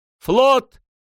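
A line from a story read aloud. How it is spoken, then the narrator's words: Group shouting. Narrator (Russian): прокричали они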